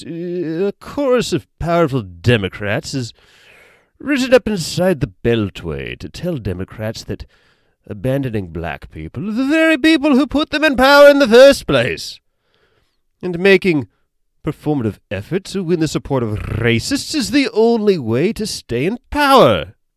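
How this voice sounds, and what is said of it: Put-on proper British accent. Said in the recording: “I'm going to give him the old proper British accent I was doing earlier. ... End quote, end accent.”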